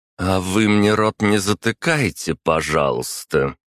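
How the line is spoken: Through gritted teeth. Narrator (Russian): процедила Анна

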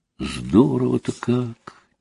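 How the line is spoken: Quiet. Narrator (Russian): тихо проговорил Костя

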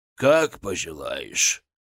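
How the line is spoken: Grumbling. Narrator (Russian): проворчал Библус

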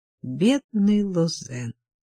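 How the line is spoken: Bitter sigh. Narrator (Russian): горько вздохнула Сильви, не пытаясь скрыть свое отношение к происшедшему

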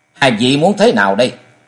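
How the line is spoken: Cold. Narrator (Vietnamese): Trần Lâm lạnh lùng nói

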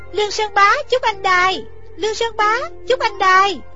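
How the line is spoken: Crying out. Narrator (Vietnamese): Thích Phương kêu lên

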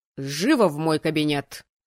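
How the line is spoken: Barked. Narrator (Russian): рявкнул теперь уже мой декан

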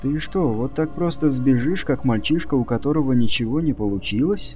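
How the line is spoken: Quiet but weighty. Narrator (Russian): Негромко, но веско говорила Джулия

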